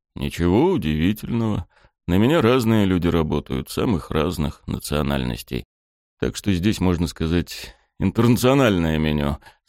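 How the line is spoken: Calm explanation. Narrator (Russian): спокойно объяснил Сайшера

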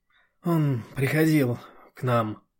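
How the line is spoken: Weary reply. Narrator (Russian): устало отвечает Диана, и ветер сносит в сторону ее слова, перемешивает

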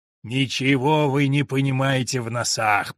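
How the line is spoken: Hoarse voice from swamp. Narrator (Russian): прохрипел из болота Бекас Долгонос

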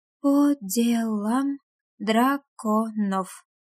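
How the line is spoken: Read slowly. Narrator (Russian): прочитала медленно

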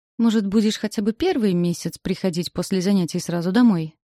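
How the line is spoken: Agitated, half-demanding. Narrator (Russian): То ли спрашивает, то ли требует взвинченным тоном

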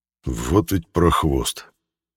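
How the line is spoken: Angry muttering. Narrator (Russian): Буркнул по-русски злобно

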